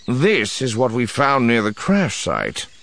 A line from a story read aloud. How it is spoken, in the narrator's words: Barris said grimly